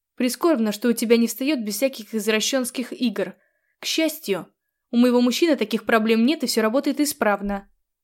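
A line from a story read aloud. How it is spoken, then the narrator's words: Snapped back. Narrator (Russian): огрызнулась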